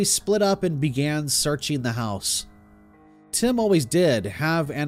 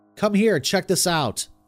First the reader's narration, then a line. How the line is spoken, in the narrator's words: called out to the other three